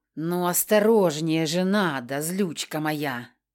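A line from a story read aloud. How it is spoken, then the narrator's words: Mocking sympathetic drawl. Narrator (Russian): Насмешливо сочувствующе протянул Киан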